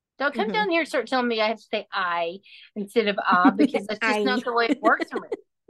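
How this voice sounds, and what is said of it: Texan accent. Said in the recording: “this is my accent because I am a native Texan, born and raised here”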